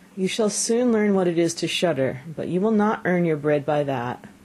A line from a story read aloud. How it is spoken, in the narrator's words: The father sighed, and answered him